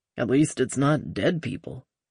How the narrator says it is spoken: Kirk murmured

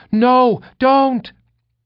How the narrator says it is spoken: Grian screamed

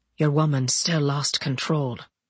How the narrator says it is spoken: in a much calmer voice, he said

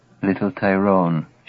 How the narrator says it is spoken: she whispers

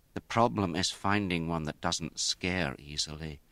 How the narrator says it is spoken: her mother muttered

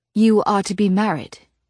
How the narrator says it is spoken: she said, her voice gone dry

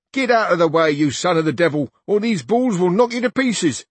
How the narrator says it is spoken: began shouting to Don Quixote

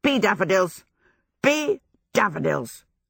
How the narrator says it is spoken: croaked

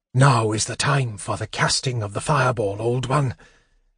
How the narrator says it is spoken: he panted

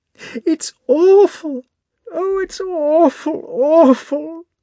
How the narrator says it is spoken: Natasha suddenly cried and again burst into sobs

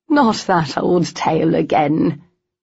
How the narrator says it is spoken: their mother groaned

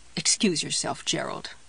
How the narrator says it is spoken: she muttered

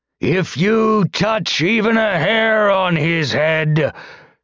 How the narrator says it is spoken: the soldier bellowed

